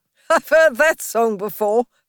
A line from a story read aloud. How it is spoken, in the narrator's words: said Toad, laughing